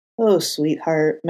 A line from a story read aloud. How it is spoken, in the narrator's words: Matt sighed